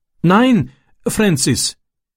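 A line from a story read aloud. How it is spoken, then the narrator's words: Pleading. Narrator (German): flehte er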